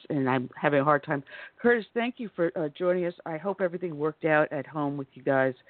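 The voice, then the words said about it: Hoarse, strained, fading voice. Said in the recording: “I am losing my voice”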